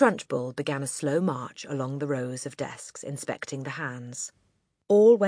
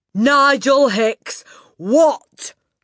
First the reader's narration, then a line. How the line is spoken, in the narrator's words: the Trunchbull bellowed